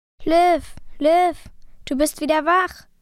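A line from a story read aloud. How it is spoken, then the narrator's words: Joyful exclamation. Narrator (German): rief ich aus und freute mich über beide Ohren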